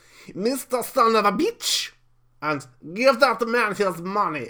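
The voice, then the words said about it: Put-on Russian accent. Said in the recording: “in my best Russian accent”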